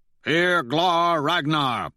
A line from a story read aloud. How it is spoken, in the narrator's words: they roar